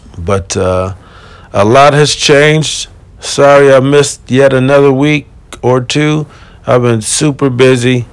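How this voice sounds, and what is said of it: Slightly weird, tired-sounding voice. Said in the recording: “I sound a little weird, a little sexy. I just woke up and I'm still kind of tired.”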